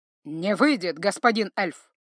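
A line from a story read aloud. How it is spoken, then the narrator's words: Growling knight. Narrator (Russian): рыкнул рыцарь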